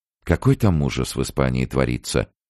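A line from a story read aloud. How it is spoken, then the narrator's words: Sad remark. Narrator (Russian): печально заметила Мэгги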